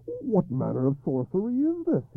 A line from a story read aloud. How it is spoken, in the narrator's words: he cried hoarsely